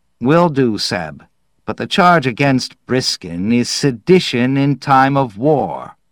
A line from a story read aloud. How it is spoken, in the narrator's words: Sighing, said